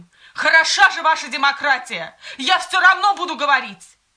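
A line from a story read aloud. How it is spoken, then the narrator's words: Shouting. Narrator (Russian): Павел кричал им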